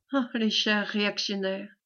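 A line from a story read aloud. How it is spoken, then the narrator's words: Low voice. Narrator (French): reprit à voix basse monsieur de Carnavant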